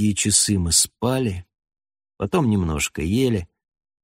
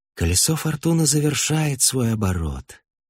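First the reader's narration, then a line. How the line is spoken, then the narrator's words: Serene tone. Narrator (Russian): безмятежным тоном сообщил Истравен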